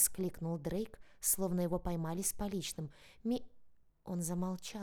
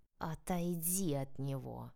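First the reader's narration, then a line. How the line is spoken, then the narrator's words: Unnatural growl. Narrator (Russian): неестественно прорычала Соня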